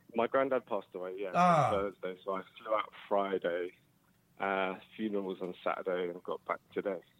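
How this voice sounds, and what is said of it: Tired-sounding voice. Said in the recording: “You sound tired. ... I am. I just got off a plane. I'm exhausted.”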